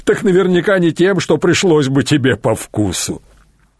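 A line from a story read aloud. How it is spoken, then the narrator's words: Chuckle from behind. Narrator (Russian): хохотнул тот, что стоял позади, невидимый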